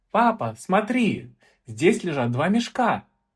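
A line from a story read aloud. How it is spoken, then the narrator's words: Exclamation. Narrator (Russian): воскликнула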